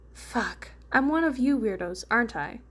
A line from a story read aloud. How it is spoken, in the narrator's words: Ventus laughed